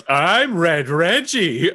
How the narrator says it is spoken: Butthole flips his speakers over to the exterior and just yells

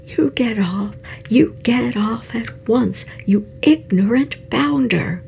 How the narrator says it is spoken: Lobgott Peepsum cried once more at the top of his voice

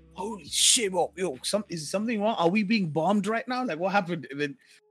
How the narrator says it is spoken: He comes from a shouting voice to his normal voice

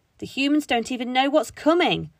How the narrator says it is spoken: shouted

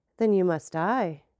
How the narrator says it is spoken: replied the president calmly

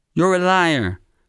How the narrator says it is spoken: Lidor yells

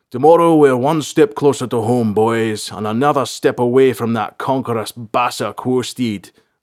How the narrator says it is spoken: another yelled in a deep, gruff voice

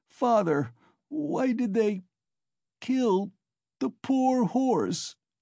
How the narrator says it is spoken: he sobbed, but his voice broke and the words came in shrieks from his panting chest

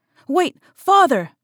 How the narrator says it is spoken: shouted Court

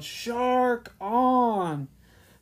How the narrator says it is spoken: They both yelled

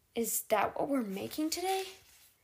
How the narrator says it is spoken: Lady Galvin sighed the way Sophie's dad used to do when he was doing his taxes

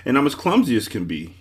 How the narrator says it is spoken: he cried

